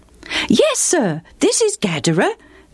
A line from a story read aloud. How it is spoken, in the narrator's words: the boy answered brightly